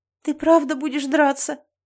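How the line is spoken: Tearful, sobbing. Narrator (Russian): Я всхлипнула

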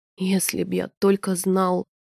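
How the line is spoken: Whispered. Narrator (Russian): прошептал Вель

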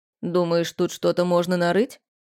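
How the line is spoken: Skeptical snort. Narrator (Russian): Порфирич хмыкнул скептически

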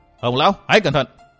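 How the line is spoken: Deep-voiced shout. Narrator (Vietnamese): Phí Thiên Cửu trầm giọng quát

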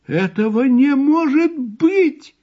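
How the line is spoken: Shouted. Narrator (Russian): крикнула тетя Сильвия

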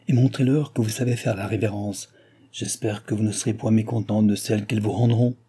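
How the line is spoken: King speaking very quietly. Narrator (French): dit tout bas le roi à Madame du Barry

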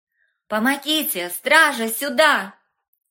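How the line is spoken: Shouted with full force. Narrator (Russian): крикнула и Женя, что было сил

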